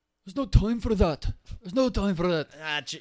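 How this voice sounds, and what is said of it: Put-on accent drifting toward Scottish. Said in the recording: “Your accent got worse, I think. ... It's like Scottish now.”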